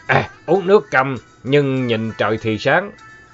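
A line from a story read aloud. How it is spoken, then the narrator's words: Irritable snap. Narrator (Vietnamese): Ông Bảy Cò ông gắt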